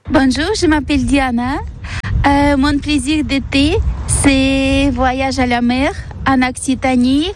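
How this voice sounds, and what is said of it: Noticeable accent speaking French. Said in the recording (French): “son accent va vous donner le sourire”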